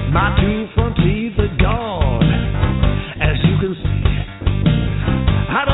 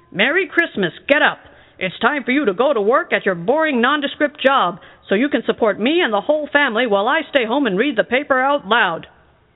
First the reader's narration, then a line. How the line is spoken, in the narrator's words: he yelled